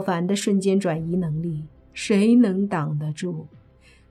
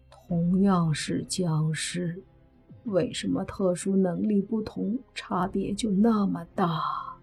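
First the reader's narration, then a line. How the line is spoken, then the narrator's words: Quiet muttering. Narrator (Chinese): 蓝眼僵尸小声嘀咕道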